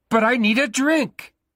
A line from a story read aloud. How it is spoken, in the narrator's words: Bruno shouted